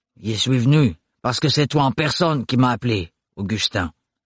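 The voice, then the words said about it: Guttural voice, strong foreign accent. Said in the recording (French): “d'une voix gutturale au fort accent étranger”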